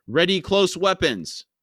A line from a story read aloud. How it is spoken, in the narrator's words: A nearby sergeant shouted